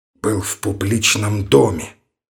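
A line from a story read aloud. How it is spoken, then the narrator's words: Almost whispered. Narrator (Russian): добавил почти шепотом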